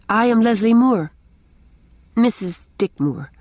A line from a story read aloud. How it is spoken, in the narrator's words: she added stiffly